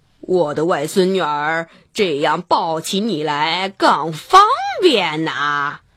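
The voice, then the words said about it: Wolf faking a grandmother's voice. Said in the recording (Chinese): “大灰狼装着姥姥的声音说”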